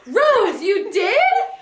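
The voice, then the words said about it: Exaggerated surprised voice. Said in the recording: “do my best surprise voice.”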